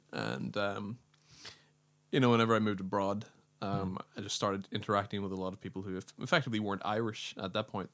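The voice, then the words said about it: Mild Northern Irish accent. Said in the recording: “I'm from like Northern Ireland ... I've always had quite a mild accent”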